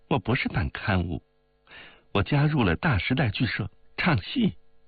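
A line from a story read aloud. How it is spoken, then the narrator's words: Laughing. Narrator (Chinese): 包太太笑着说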